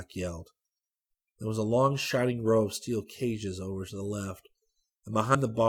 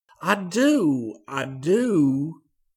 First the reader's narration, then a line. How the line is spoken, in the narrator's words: Enoch cried